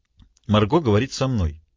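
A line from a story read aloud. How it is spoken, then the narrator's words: Dry remark. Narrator (Russian): сухо заметила Нора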